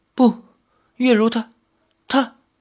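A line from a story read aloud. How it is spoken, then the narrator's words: Trembling voice. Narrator (Chinese): 李逍遥颤声说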